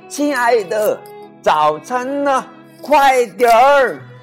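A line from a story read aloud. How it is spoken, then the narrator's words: Loud hurried call. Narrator (Chinese): 朱先生去上很重要的班之前，总是大声的喊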